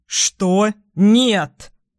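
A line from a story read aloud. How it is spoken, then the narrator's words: Too loud shout. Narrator (Russian): Люк выкрикивает слишком громко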